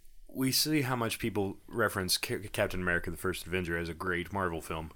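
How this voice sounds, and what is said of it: Sarcastic tone. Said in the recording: “I'm being sarcastic here ... I didn't put the wrong emphasis on the wrong syllable.”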